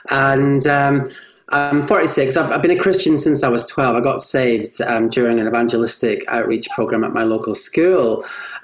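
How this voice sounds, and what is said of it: Scottish accent. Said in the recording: “Scottish by birth, and hence the kind of accent.”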